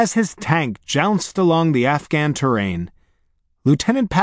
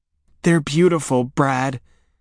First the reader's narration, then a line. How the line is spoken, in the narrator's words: said Katie in a husky voice